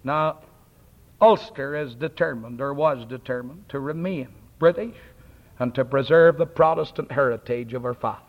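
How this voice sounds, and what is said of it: Scottish-style brogue with rolled R's. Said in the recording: “I have a Scotch brogue. ... I have a good Scotch. I roll my R's.”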